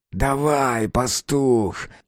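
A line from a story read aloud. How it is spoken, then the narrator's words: Irritated dog-headed grumble. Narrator (Russian): раздраженно проворчал псоглавец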